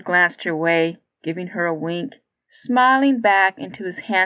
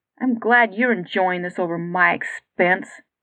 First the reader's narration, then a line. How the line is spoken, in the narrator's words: Katie grumbled